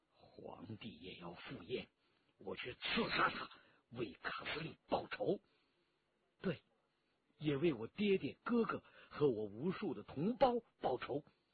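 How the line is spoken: Through gritted teeth, vengeful. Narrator (Chinese): 陈家洛咬牙切齿

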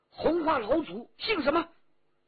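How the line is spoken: Loud demanding shout. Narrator (Chinese): 高声喝问

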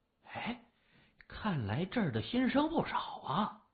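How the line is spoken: Quiet muttering. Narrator (Chinese): 李爽小声嘀咕

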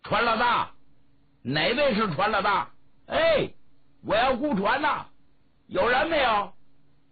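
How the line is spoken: Calling out repeatedly. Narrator (Chinese): 他喊了半天

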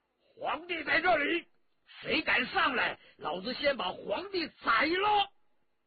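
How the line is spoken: Loud shout. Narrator (Chinese): 文泰来高声喝道

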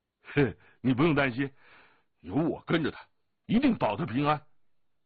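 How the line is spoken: Laughing. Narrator (Chinese): 降龙笑着说

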